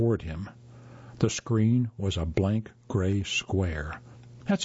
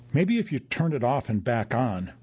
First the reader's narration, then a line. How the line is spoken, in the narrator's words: Oren said desperately